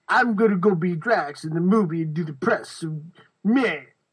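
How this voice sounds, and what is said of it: Imitates another person's voice. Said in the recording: “That's my Batista impression. I'm workshopping it.”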